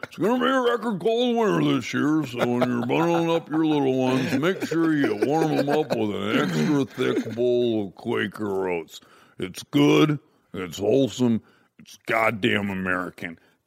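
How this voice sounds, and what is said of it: Imitates another person's voice. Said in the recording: “I was doing Wilford Brimley ... good impersonation”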